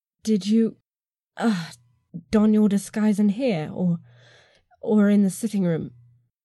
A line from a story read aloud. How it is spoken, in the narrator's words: I moaned